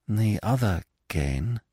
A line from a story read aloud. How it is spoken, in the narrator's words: she said slowly